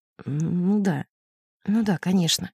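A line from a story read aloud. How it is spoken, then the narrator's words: Muffled, hollow. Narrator (Russian): Глухим голосом он ответил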